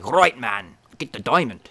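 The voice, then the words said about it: Put-on South African accent, sounds Australian. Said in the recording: “that South African accent... That sounded Australian.”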